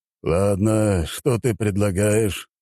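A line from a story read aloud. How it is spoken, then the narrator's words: Sighing. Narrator (Russian): вздохнул император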